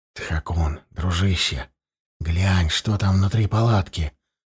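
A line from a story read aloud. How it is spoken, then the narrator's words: Whisper. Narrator (Russian): прошептал я призраку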